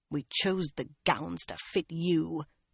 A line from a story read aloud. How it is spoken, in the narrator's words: the other woman muttered after a moment